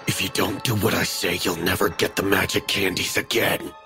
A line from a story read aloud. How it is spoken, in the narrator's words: Carl hissed